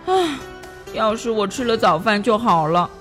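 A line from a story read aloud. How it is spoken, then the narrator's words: Sighing, lamenting. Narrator (Chinese): 戴维唉声叹气的说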